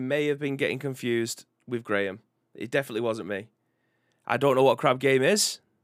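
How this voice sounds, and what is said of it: Strong Mancunian accent. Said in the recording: “I'm severely Mancunian”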